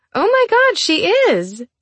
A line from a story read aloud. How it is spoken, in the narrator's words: Haley exclaimed